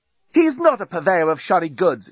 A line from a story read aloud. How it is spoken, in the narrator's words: exclaimed Lucy, who, if the truth were told, was a bit hacked off by the reaction to Nettie's entrance